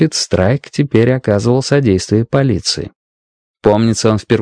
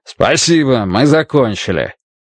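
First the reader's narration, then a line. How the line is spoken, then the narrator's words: Loud, echoing. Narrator (Russian): громко сказал он санитару, и его слова эхом разнеслись по всему залу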